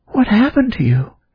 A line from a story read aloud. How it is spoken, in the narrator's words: Abigail asked tenderly, bending down close to him